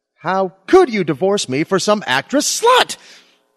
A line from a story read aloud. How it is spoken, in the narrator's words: shouted my Lily